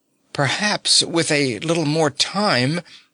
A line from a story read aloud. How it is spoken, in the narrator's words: faltered Nifflepok